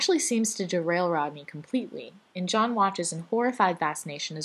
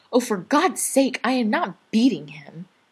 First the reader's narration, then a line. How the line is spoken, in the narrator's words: The hot, furious blush that rises to Rodney's cheeks as he snaps